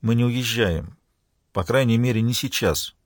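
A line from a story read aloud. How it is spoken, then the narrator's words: Careful, soft addition. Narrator (Russian): более осторожно и мягко добавила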